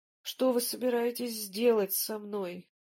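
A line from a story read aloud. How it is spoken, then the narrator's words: Barely audible moan. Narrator (Russian): еле слышно простонал Смирнов, придя в сознание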